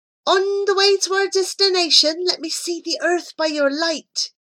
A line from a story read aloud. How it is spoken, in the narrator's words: he cried